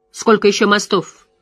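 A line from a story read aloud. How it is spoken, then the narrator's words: Sharp question. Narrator (Russian): резко спросила Морейн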